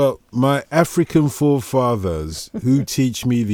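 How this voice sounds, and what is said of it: Usual voice. Nothing is said of it.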